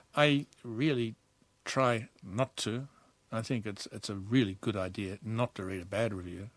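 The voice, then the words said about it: Australian accent. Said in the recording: “Your accent betrays you, Australian-born”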